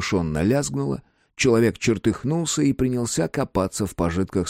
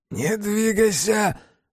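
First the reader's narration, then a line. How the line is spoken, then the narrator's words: Robber's trembling voice. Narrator (Russian): дрогнувшим голосом ответил разбойник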